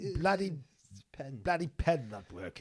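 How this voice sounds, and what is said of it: Impression of King Charles. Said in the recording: “You make a really good impression of Charles.”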